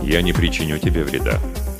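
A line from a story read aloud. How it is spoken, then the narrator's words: Calm. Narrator (Russian): спокойно произнес Джа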